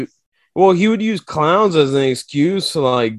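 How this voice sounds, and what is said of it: Usual voice. Nothing is said of it.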